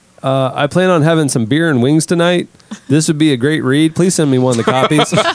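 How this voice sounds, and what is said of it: Put-on Northeastern US accent. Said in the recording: “Why did you insert the accent? ... He wasn't from the Northeast, apparently.”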